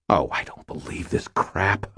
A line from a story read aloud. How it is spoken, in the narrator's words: I muttered